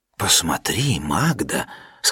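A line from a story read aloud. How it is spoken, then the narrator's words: Said in a low voice. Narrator (Russian): сказал вполголоса дядюшка Нильс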